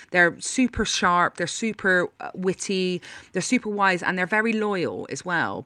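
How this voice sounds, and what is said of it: Bristolian West Country accent. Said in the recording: “There's a real sort of West Country sensibility ... when you have this accent ... it's all hidden in this accent”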